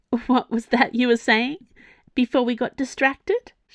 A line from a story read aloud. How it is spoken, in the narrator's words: laughed